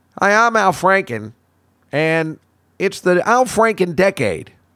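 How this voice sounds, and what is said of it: Imitates another person's voice. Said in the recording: “our friend Al Franken from Saturday Night Live”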